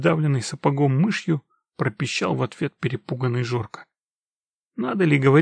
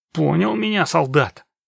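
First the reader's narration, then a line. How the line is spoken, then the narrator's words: Vicious growl. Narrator (Russian): Злобным ротвейлером рыкнул на Жорку напоследок замполит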